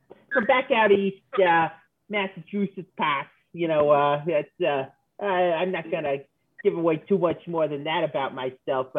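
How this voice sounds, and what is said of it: Distinctive regional accent. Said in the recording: “That's a very interesting accent you got there... The accents are just off... It's subtle, but if you pay attention, you can pick up on it.”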